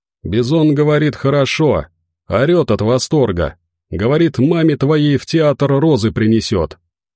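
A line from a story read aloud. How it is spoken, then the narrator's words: Joyful ghoul yelling. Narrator (Russian): В свою очередь радостно заорал упырь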